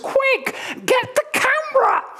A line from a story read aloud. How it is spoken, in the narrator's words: My mum screams and she says